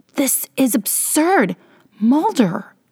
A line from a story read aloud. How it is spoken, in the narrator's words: She sputters